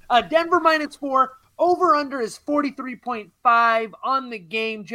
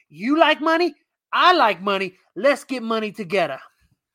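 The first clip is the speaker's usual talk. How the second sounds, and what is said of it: Put-on comedic accent. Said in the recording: “all of your segments also have accents. I think the accent along with the segments ... This is the money accent guy.”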